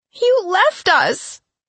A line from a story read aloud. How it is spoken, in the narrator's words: she cried